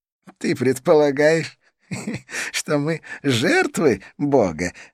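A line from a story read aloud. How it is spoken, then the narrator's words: Laughing. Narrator (Russian): рассмеялся Идрис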